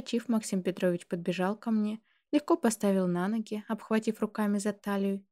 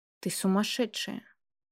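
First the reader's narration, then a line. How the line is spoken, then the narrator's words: Sigh. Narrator (Russian): вздохнул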